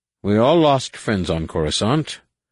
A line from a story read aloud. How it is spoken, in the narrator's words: the human senator said grimly